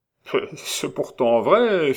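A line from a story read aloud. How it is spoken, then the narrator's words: Laughing. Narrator (French): fit en riant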